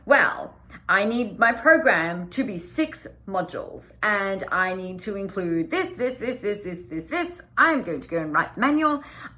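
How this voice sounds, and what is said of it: Mocking funny voice. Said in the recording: “I'm saying that in a funny voice because I'm poking shit at myself”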